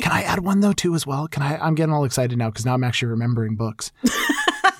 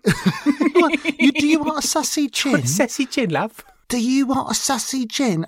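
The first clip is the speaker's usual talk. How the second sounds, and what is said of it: Deliberately bad put-on English accent. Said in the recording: “I'm doing a horrible English accent.”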